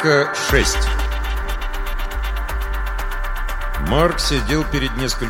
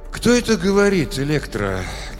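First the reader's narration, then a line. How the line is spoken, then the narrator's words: Forced calm question. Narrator (Russian): Как мог спокойно, спросил Марк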